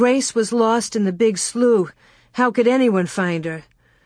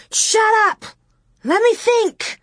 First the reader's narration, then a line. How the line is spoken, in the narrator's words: Laura screeched